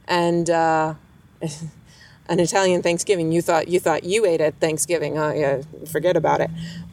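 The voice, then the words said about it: New York accent. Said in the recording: “coming from New York ... Don't make fun of my accent.”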